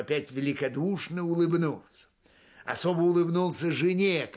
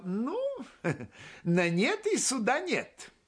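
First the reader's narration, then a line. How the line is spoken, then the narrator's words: Laughing. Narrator (Russian): Теперь засмеялся Глеб и сказал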